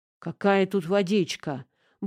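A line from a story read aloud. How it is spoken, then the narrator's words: Muttering. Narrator (Russian): буркнул Брыкун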